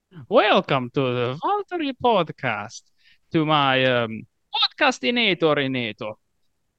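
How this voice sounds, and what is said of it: Impression of Dr. Heinz. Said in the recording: “do a decent impression of uh, Dr. Heinz ... welcome you to the podcast using his voice ... that's just really bad”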